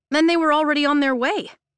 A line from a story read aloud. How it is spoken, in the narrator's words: I blurt